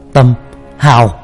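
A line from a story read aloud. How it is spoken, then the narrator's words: Sudden shout. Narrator (Vietnamese): Chợt ba la lên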